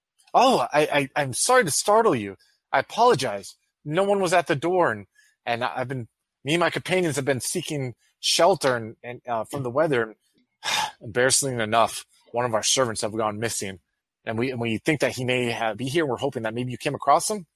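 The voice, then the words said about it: Warm, charming character voice. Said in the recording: “all charming ... in my most warm voice that I have”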